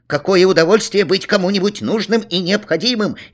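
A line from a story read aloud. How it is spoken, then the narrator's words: Cheerful neighbor. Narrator (Russian): весело сказал сосед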